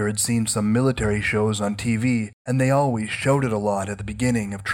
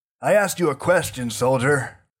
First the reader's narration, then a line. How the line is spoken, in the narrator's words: barked Graf